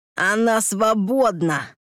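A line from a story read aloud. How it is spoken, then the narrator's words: Lisping. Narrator (Russian): прошепелявил урод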